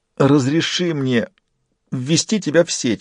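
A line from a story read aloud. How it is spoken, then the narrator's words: Pleading. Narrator (Russian): взмолился Фист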